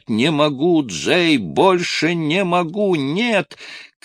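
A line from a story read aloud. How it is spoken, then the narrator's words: Screaming louder in pain. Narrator (Russian): Кэт с каждым приступом боли кричала все громче, а затем застонала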